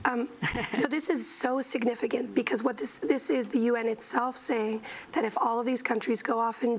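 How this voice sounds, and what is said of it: Hoarse, strained, nearly lost voice. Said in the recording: “I have to apologize for my voice ... they've lost their voice”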